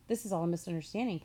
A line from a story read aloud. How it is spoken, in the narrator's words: Papa said